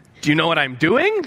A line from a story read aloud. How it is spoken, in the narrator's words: she says